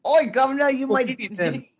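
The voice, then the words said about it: Mock Cockney accent. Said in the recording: “what about the fucking, like, really cockney ones, though?”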